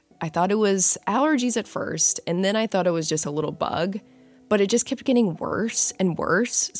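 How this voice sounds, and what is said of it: Sick, rough voice. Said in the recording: “I'm sure you can hear it in my voice. I got sick last week... I had a killer sore throat... I got COVID”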